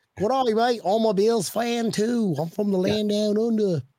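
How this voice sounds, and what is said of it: Put-on Australian accent. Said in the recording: “You think I can get by with my Australian accent? ... Yeah, you pass. Weird accent.”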